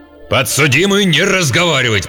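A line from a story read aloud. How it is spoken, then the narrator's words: Roared. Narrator (Russian): проревел судья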